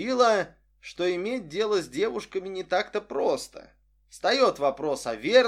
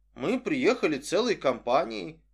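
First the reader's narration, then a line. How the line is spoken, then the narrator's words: Dry objection. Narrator (Russian): сухо возразил Стюарт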